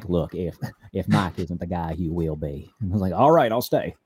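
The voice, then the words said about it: Imitates another person's voice. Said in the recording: “that's a really good impression”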